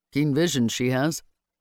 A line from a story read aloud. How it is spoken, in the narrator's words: he dryly observed